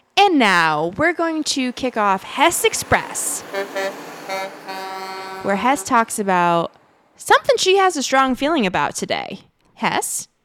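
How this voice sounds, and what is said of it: Radio broadcaster announcer voice. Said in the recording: “talking like a weather and traffic radio reporter ... broadcast accent”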